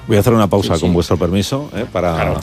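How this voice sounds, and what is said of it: Very serious, formal interviewer tone. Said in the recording (Spanish): “estás poniendo voz muy seria todo el rato ... ¿Qué tono es este? ... Es un tono como si estuviéramos entrevistando.”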